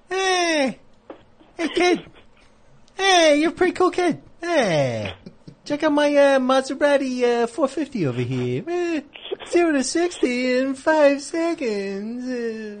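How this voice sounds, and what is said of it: Jay Leno impression. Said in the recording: “my Jay Leno impression”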